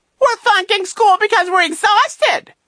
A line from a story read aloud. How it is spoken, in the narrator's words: he squealed